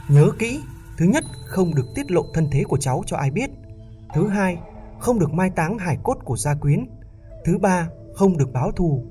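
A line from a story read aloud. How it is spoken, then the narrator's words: Loud shout. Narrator (Vietnamese): Độc Long thủ Trương Thông hét lớn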